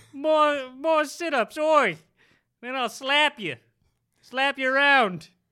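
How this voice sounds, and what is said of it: Weak British accent sounding Australian. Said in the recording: “Mick Jagger ... what would that sound like? ... You sound a little Australian there. ... I'm not good at accents.”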